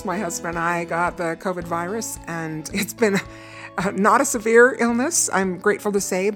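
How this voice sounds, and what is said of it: Hoarse, low-energy voice. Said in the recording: “I'm still a little hoarse. ... it did kind of knock me over and exhausted me ... if I sound a little bit hoarse still or not quite up to my energy level”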